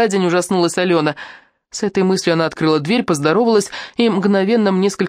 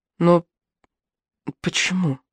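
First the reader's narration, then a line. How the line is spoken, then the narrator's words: Surprised mumble. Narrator (Russian): пробормотала удивленно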